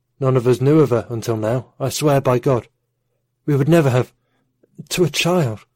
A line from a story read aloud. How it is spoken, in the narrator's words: His voice trailed off, and Amran saw his father fight back tears